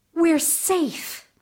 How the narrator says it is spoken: Fifine gasped

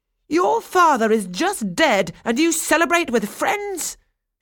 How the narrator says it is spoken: she exclaimed

